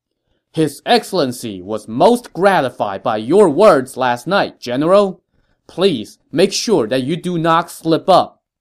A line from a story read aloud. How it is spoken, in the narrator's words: he had to raise his voice to be heard, Cao Hong bowed from his saddle and said, loud enough for everyone to hear